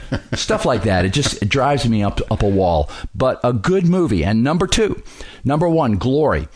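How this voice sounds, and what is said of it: Usual voice. Nothing is said of it.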